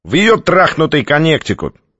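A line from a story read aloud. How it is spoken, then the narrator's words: Snort. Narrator (Russian): Двухцветный снова хмыкнул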